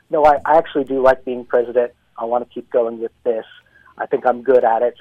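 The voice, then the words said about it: Hyannis Port accent. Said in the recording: “Nice Hyannis Port accent there, too.”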